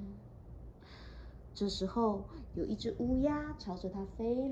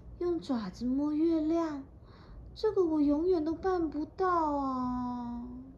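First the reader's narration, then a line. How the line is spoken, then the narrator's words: Sighing. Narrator (Chinese): 小狮子叹气的说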